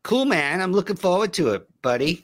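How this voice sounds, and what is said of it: Poor put-on American accent. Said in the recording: “Your English accent is just ... American ... That's so bad.”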